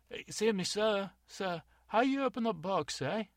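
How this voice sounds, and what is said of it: Fake foreign accent. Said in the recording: “Stop with the fake accent.”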